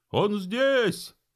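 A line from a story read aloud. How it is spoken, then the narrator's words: Crowd shouting from below. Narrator (Russian): закричали снизу те, кто видел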